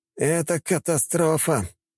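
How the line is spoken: Groaning thin man. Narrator (Russian): простонал худой мужчина в скафандре

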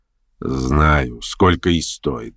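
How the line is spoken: Grumbled under breath. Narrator (Russian): проворчал про себя Ставрогин

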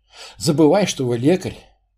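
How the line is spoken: Sighing, king. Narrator (Russian): вздохнул царь

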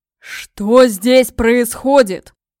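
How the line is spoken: Thunderous wall-shaking voice. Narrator (Russian): прогремел он голосом, от которого дрожали стены

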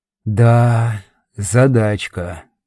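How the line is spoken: Drawling. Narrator (Russian): протянул я

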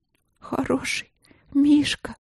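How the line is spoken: Trembling, shocked whisper, princess. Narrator (Russian): дрожащим голосом прошептала принцесса, пребывая в некотором шоке

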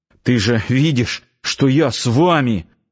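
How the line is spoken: Strained, forced out. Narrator (Russian): с трудом выдавил из себя Нанос

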